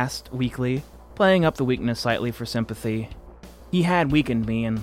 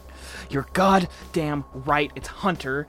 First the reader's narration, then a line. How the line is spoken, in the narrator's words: he growled